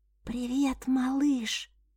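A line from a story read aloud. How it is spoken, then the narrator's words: Whisper. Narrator (Russian): прошептала она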